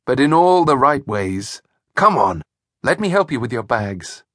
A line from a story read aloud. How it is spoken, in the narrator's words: replied John, chuckling